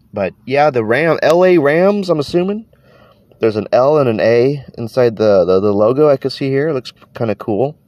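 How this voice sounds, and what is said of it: Congested, stuffy-nosed voice. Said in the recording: “if I sound like a weird, like, you know, person right now, it's because my nose is, you know, all congested. I got some mad allergies going on ... my voice sounds a little off”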